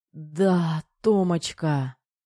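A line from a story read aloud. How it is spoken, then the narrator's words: Moaned. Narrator (Russian): Застонал Кир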